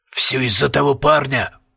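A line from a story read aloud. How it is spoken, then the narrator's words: Muttering. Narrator (Russian): пробормотал Пуст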